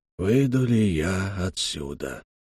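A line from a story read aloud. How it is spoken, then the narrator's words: Quiet. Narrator (Russian): тихо сказал Соуза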